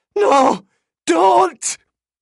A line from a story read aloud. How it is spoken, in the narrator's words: she began